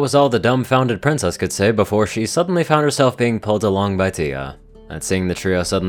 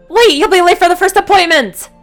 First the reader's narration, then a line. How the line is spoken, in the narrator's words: she shouted